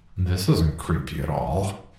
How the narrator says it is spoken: Paul commented sarcastically as we crawled along

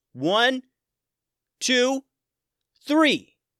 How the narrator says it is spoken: They were still running at full speed, and Tim yelled out

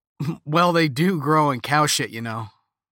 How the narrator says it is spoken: replied with a laugh

